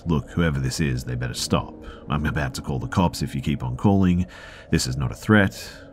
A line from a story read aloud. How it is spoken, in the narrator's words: S said in a tough voice